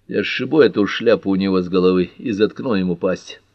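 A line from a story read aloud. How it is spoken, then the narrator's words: Even, steady voice. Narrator (Russian): ровным голосом поведал публике Дэви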